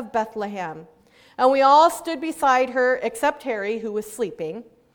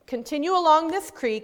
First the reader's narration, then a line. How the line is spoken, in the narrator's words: he said